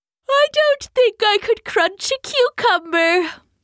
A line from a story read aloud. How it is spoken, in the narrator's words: said the teeth with a great heaving yawn